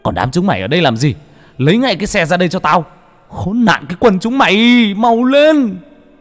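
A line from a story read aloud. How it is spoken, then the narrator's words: Angry yelling. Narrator (Vietnamese): Cha vẫn la hét, mắng chửi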